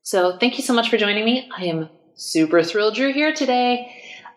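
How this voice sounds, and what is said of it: Fast, nervous, stressed-sounding speech. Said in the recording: “my voice is a little bit stressy ... I've had a lot of coffee today ... I always talk really fast and get really nervous”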